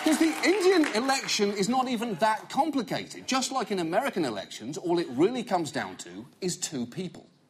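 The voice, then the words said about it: British accent. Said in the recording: “it is not the first time that sentence has been said in a British accent”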